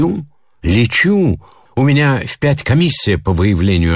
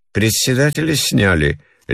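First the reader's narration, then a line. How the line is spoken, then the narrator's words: Lazy question. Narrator (Russian): лениво спрашивала жена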